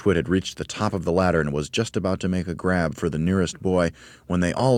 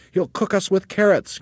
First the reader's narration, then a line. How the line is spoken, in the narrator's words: cried the third